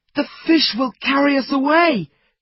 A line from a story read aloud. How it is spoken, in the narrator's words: cried Fritz